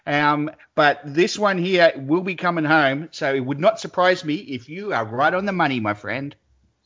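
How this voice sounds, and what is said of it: Excited voice. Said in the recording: “I hear the excitement in your voice.”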